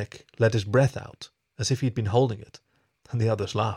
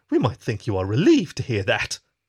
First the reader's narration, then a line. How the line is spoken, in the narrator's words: Susie exclaimed